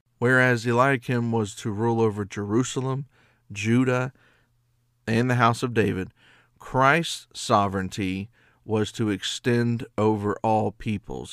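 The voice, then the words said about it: Hoarse, nasal, fading voice. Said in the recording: “Starting to lose my voice. ... I'm still kind of um, coughing and nasally”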